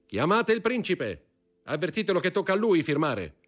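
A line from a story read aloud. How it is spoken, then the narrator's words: Shouting. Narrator (Italian): gridò Danglars ad un cameriere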